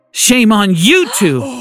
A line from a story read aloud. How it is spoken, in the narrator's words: Grandma shouted